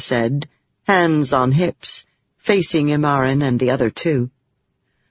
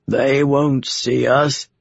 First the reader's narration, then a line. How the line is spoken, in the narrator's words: Jonath said with a laugh